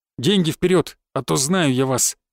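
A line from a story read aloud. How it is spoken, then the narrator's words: Through clenched teeth. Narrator (Russian): процедил усатый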